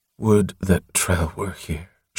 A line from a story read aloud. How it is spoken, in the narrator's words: she breathed distractedly